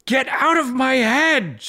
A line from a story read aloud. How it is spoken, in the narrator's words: shouted Roan, feeling blood pour from her ears